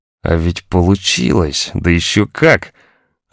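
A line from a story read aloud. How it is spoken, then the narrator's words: Admiring sigh. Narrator (Russian): Она восхищенно вздохнула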